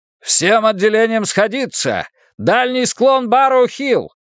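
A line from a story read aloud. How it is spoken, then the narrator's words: Commanding bellow. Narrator (Russian): заорал он самым командирским тоном, на какой только был способен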